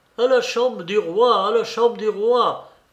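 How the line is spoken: Shrill impatient shout. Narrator (French): crie la même voix perçante, impatiente

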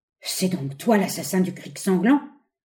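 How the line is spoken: Terrible exclaiming voice. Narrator (French): s'écria le milliardaire d'une voix terrible

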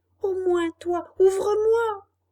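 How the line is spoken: Crying, pleading shout. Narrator (French): cria Pinocchio en pleurant et en suppliant

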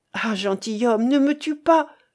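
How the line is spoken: King crying out. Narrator (French): s'écrie le roi

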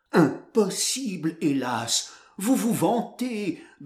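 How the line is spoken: Director stammering, deeply moved. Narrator (French): balbutie le directeur, évidemment remué au plus secret de ses plus vieux espoirs

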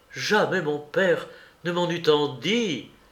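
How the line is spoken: Enthusiastic young man exclaiming. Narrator (French): s'écria le jeune homme enthousiaste

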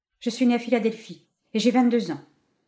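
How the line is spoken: Curt reply. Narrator (French): répondit-elle sèchement

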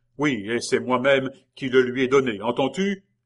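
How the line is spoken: Threatening, impatient voice. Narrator (French): dit d'une voix menaçante Maurice, que ce colloque impatientait

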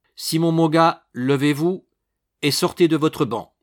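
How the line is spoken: Unusually curt. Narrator (French): dit le président Sourdeval d'un ton sec qui ne lui était pas ordinaire

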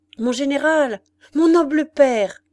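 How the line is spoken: Exclaiming. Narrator (French): s'écria une voix connue

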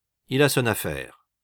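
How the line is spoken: Grumbled. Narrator (French): grommela-t-il

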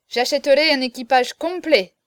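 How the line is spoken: Enthusiastic exclamation. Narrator (French): s'écriait Coquardas avec enthousiasme

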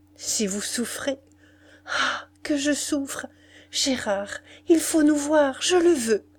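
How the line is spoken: Embarrassed stammer. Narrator (French): Gêné, il balbutia

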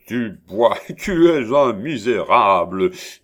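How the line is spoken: Laughing. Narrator (French): dit le duc en riant

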